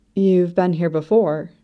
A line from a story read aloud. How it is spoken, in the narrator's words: she asks